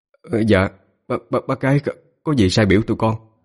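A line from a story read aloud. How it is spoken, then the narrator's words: Stammering. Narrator (Vietnamese): Anh Tám lắp bắp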